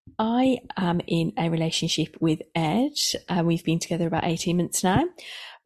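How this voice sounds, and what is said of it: Midlands English accent. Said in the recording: “I live in the Midlands, if you hadn't already guessed by my accent.”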